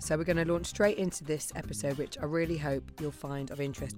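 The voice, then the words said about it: Damaged, partly lost voice. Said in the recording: “my voice isn't great ... I lost it over the weekend and I've been on vocal rest ... but I still don't sound great”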